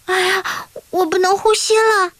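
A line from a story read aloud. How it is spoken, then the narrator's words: Loud cry. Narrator (Chinese): 他又大叫一声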